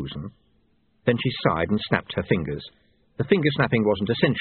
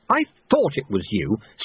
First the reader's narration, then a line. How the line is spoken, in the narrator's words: snapped Susan